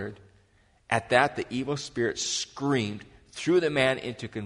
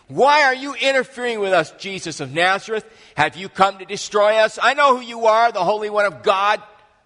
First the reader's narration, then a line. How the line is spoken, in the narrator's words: a man in the synagogue who was possessed by an evil spirit began shouting